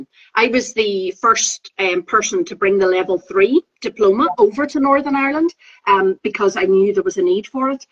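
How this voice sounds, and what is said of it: Northern Irish accent. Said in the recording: “I'm Northern Irish”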